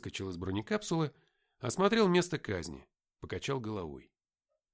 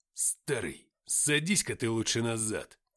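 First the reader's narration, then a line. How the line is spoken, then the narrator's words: Snarling hiss. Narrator (Russian): Скались прошипел Артем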